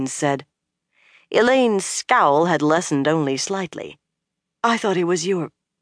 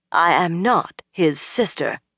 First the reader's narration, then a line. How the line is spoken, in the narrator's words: Elaine said firmly